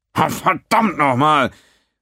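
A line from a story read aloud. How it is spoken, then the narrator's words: Roaring. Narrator (German): brüllte Quinn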